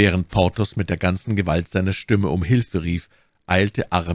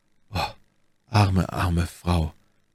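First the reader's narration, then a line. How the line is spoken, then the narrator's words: Sighing, broken voice. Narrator (German): seufzte Athos mit gebrochener Stimme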